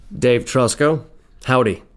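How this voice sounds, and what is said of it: Slight American accent. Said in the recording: “there's a slight accent with some of our friends here from over the pond. ... USA.”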